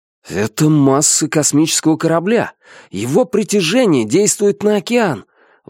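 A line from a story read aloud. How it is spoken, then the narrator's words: Surprised exclamation. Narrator (Russian): воскликнул Фэн Фань, несколько удивленный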